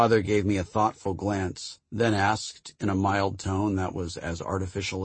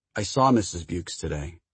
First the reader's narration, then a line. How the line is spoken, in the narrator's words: In a distant, artificially calm voice, I said